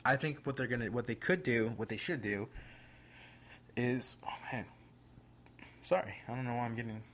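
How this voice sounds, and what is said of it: Out of breath, breathless speech. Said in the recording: “I'm getting out of breath. I'm getting passionate and I can't breathe.”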